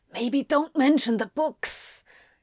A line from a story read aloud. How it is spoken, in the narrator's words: Anthony whispered